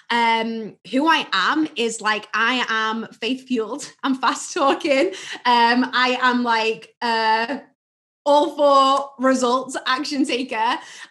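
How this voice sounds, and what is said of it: UK accent. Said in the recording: “you have an accent ... I am originally from the UK”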